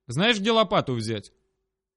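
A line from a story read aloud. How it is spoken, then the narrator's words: Dry, wooden voice. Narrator (Russian): как сухо и деревянно звучал мой голос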